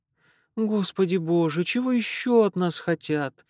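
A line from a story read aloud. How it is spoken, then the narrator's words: Niece moaning, sighing. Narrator (Russian): простонала племянница и вздохнула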